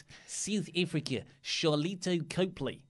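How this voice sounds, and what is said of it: Put-on South African accent. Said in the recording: “try mildly offensive South African accent”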